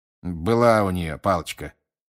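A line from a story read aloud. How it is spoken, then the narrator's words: Grumbling. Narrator (Russian): проворчал мистер Диггери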